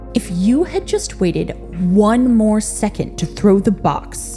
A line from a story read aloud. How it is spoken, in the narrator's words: said angrily